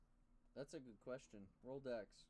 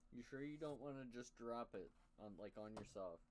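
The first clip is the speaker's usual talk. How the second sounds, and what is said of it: Sarcastic tone. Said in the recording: “It was sarcasm.”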